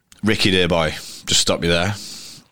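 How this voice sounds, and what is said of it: Attempted posh English voice. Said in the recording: “Obviously, I can't do the posh voice. ... That were good.”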